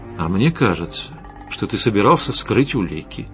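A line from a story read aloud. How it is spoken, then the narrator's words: Quiet but menacing. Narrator (Russian): тихо, но угрожающе произнес Костя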